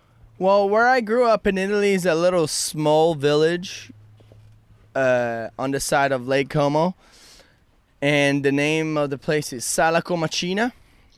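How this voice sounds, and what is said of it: Italian accent. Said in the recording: “you have some sort of accent you're speaking with, and that is an Italian accent.”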